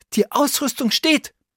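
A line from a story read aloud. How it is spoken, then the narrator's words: Excited call. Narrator (German): rief Oliver aufgeregt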